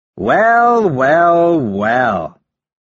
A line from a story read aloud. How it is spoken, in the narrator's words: sneers from below